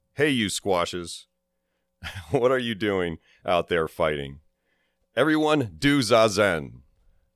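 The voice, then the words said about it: Booming scolding voice. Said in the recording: “scolded them in a booming voice.”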